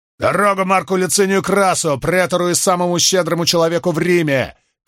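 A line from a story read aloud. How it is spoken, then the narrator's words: Shouted by several. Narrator (Russian): кричали они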